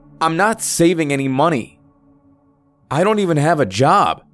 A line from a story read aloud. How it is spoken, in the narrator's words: I angrily shouted